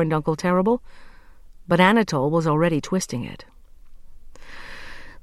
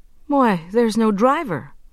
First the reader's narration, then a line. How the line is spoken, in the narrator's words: exclaimed Anatole, for he saw none